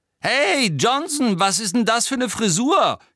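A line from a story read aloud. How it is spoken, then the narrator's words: Shrieking from below. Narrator (German): kreischte Pansy Parkinson von unten herauf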